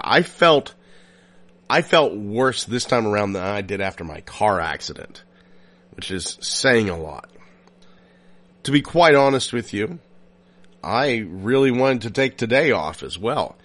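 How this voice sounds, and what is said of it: Sick, unwell-sounding voice. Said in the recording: “I'm sure you hear it in my voice. I'm not feeling well. I'm coughing so much”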